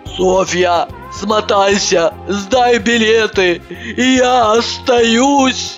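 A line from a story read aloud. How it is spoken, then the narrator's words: Sobbing instruction. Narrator (Russian): В промежутке между рыданиями выдала указание Иванова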